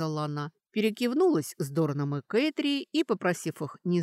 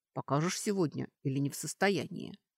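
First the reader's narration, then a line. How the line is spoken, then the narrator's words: Low-voiced question. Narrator (Russian): Хэбер вполголоса спросил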